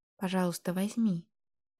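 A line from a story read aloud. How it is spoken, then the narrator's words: Fervent whisper, girl. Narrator (Russian): Горячо зашептала девочка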